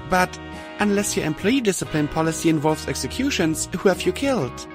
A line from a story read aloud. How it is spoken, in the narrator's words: I gasped